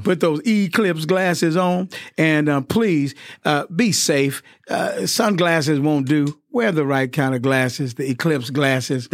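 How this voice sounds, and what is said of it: Southern US accent. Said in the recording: “us Southerners say Eclipse rather than Eclipse ... There goes my Southern accent again.”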